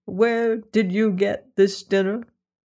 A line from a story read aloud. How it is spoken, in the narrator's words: questioned Mother Hulda solemnly